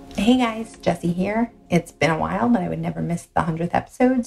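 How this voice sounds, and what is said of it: Quiet whispering voice. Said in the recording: “she's talking very quietly. She's whispering”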